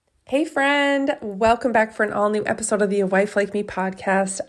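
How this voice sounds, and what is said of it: Voice sounds off from illness. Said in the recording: “I'm still coughing ... my voice is funny”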